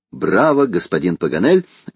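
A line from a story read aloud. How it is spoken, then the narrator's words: Merry laughter, woman. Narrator (Russian): весело смеялась леди Элен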